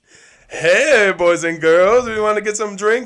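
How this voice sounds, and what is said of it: Imitates a Latina waitress's voice. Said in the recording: “imagine like this hot Latina waitress ... my impersonation of her”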